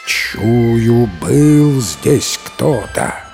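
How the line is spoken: Bear's growl. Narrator (Russian): Зарычал медведь

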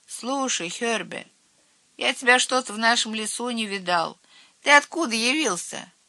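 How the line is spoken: Lazy question. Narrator (Russian): Цвотель лениво спросил

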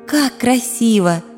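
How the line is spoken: Breathless exhalation. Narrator (Russian): выдохнула Агния

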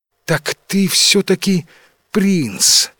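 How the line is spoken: Breathed out, princess. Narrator (Russian): выдохнула наконец принцесса

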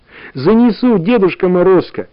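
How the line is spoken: Joyful girl's agreement. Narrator (Russian): радостно согласилась Таня

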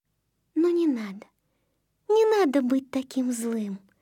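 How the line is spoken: Gentle, affectionate. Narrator (Russian): ласково заговорила она

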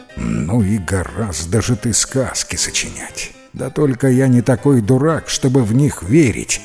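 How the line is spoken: Plain. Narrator (Russian): ответил Жан

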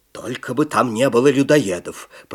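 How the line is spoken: Grumbling cook. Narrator (Russian): проворчал повар

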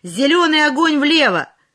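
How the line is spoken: Shouted. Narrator (Russian): Крикнул

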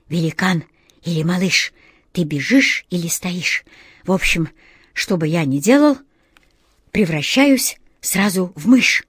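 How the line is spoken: Breathless exhausted cat whisper. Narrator (Russian): Из последних сил заторопился кот Васька и, задыхаясь, прошептал

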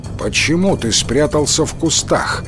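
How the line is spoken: Stern question. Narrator (Russian): строго спросил атаману Кензо

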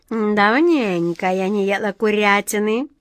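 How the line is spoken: Purring. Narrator (Russian): промурлыкала она

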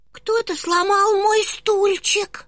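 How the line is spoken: Very thin small voice. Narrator (Russian): сказал маленький медвежонок совсем тоненьким голосом

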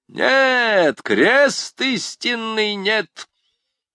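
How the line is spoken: Thunderous exclamation. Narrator (Russian): Громовым голосом воскликнул он

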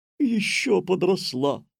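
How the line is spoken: Joyful. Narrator (Russian): радостно сказала госпожа Жадность

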